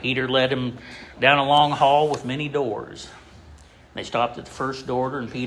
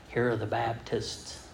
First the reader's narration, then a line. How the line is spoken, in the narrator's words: Peter whispered again